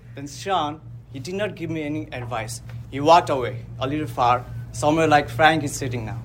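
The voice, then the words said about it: Strong accent, hard to understand. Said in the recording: “You have a beautiful accent, but we cannot understand.”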